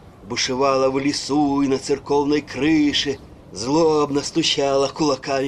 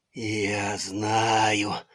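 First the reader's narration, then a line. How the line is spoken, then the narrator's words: Muttering. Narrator (Russian): бормотал он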